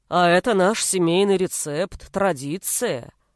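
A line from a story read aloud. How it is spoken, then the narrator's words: Deep bass mimicry. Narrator (Russian): пробасил Фарид, передразнивая своего отца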